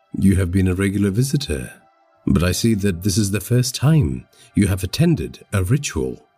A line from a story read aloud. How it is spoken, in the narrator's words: said